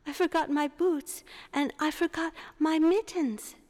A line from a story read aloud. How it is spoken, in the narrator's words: cried Gerda